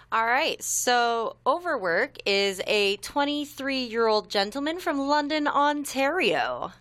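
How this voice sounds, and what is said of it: Put-on radio announcer voice. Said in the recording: “Listen to you putting on radio voice.”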